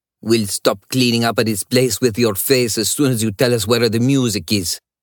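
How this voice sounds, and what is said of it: Younger, sharp-toned Italian accent. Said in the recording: “a different male voice, younger, sharp-toned with an Italian accent.”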